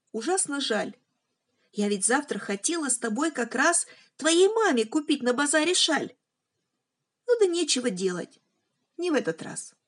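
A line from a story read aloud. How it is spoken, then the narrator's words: Loud reply. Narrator (Russian): ответила громко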